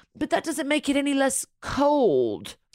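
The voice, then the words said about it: Good impression of Lisa. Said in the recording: “that was a really good Lisa impression.”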